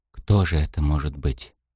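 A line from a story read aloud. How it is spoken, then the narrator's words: Whispered. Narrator (Russian): прошептал он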